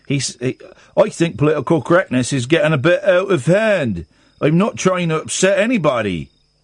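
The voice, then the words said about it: Put-on accent while reading. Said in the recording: “I'll carry on with that accent.”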